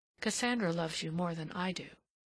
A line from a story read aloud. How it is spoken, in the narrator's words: He then heard her murmur